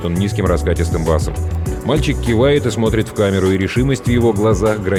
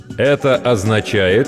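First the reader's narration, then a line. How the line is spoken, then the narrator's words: Loud and slow. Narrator (Russian): громко и медленно произносит он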